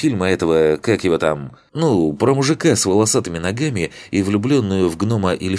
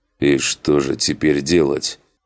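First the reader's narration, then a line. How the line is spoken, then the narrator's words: Chilled frightened voice. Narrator (Russian): похолодевшим голосом спросил Макс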